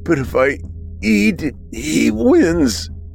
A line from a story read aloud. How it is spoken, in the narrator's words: Braden moaned with fresh tears